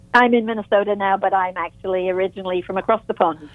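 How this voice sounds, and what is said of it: British London accent. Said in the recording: “You don't sound like somebody from Minnesota ... I do appreciate the accent.”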